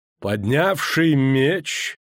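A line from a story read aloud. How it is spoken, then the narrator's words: Muffled, hollow. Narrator (Russian): глухо проговорил Эмгыр Варамрейс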